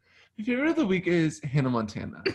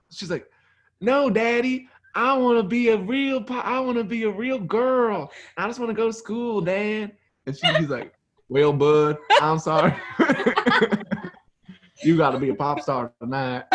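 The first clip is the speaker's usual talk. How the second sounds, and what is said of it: Impression of Hannah Montana. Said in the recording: “do your Hannah impersonation”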